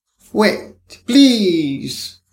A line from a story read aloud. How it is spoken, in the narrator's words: cried